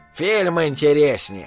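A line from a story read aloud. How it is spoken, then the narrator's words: Old man grumbling. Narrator (Russian): пробурчал старик, дедуля Флик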